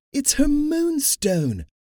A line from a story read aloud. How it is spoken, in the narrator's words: Dahlia cried